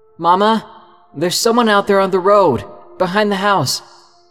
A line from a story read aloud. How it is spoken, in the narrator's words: I yelled